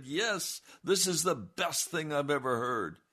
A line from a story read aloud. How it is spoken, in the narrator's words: people shouted and said